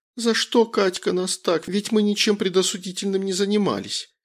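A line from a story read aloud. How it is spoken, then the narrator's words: Emotional tearful outburst. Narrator (Russian): Эмоционально выдала сквозь слезы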